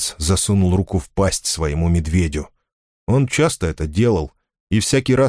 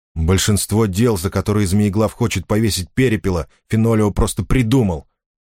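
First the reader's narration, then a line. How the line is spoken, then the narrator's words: Angry. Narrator (Russian): сердито сказал Сожирук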